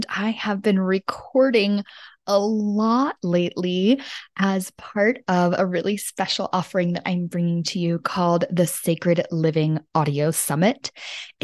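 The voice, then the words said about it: Slightly sick, rough voice. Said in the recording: “Excuse my voice. ... I am a little bit under the weather”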